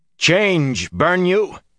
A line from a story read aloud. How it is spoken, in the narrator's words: he shouted